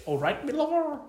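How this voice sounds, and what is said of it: Attempted Cornish accent, pirate-like. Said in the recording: “Can you do a Cornish accent? ... That's a pirate.”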